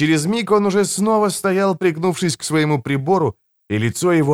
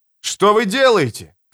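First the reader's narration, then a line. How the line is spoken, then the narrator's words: Shouting. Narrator (Russian): кричал он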